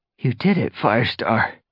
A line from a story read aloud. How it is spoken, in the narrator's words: he panted